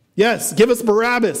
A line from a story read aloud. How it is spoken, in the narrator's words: another Pharisee shouts